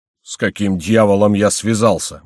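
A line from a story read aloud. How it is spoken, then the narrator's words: Grumbling. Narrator (Russian): ворчал Горанфло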